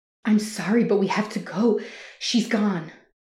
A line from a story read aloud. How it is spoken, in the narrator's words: I pleaded with as much sensitivity as the situation could allow